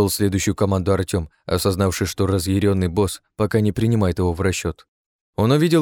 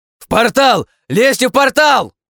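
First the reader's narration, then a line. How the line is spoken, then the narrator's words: Young man's all-out yell. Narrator (Russian): закричал парень изо всех сил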